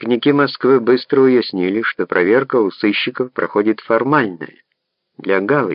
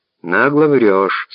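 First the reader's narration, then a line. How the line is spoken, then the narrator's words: Calm. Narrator (Russian): спокойно продолжал Гуров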